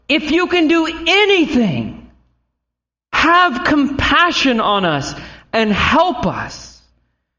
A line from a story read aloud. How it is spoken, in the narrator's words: Mark tells us he cried out